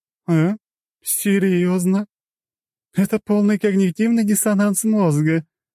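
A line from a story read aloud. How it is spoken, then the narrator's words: Laughing. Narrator (Russian): рассмеялась Цусима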